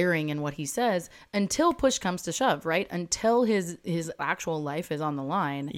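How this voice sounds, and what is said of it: Usual voice. Nothing is said of it.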